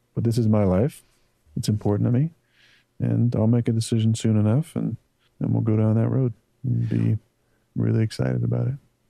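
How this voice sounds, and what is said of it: Quiet whispery low-energy speech. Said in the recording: “Why is he whispering on this podcast? ... we're just going to talk like this and there's going to be no energy?”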